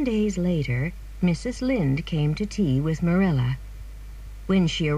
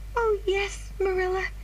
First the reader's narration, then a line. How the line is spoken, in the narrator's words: cried Anne